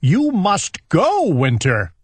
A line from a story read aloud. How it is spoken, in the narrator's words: shouted Owl